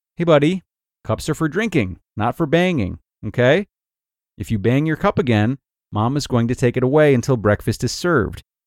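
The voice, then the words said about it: Calm, matter-of-fact mom voice. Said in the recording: “In my calmest and most matter-of-fact mom voice”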